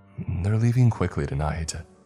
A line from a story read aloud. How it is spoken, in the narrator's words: Layton says anxiously